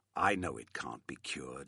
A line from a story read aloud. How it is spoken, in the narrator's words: said bitterly